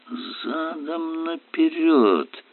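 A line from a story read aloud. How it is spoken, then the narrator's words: Groaning. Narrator (Russian): простонал Най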